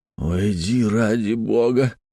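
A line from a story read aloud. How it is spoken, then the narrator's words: Moaning. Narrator (Russian): простонал я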